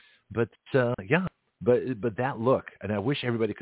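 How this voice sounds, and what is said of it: Usual voice. Nothing is said of it.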